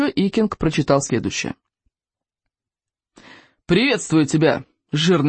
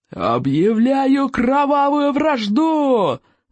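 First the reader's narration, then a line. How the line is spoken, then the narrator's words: Yelling. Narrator (Russian): завопил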